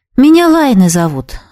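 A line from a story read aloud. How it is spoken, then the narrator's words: Sighing reply. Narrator (Russian): вздохнула в ответ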